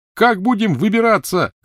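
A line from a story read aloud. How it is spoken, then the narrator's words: Shouted over screaming din. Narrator (Russian): крикнул Рон сквозь общий визг и вой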